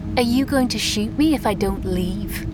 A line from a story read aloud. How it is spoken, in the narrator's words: she asked him